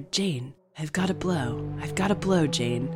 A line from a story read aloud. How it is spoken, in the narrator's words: whispered